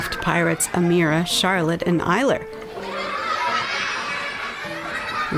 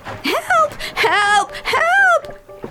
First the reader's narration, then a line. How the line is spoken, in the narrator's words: shrieked all the pirates